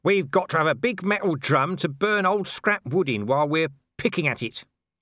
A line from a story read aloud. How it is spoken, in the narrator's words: said Nobby firmly